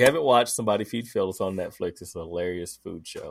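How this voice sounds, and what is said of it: Usual voice. Nothing is said of it.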